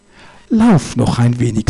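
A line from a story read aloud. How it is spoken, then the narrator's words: Said gently. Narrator (German): sagte der heilige Josef sanft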